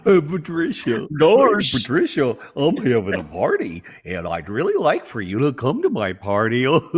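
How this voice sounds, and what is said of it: Goofy put-on Southern accent. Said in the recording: “it's with a southern accent ... It's like southern goofy.”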